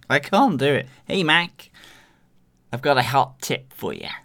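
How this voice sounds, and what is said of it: Weak attempted American accent. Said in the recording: “his American accent ... That's about as good as Jarvis's accent”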